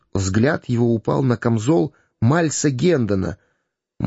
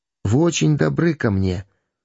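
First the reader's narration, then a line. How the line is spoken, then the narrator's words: Gentle, affectionate. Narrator (Russian): ласково обратился он к Гендону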